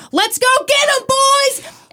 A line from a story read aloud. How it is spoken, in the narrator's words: he yelled to his team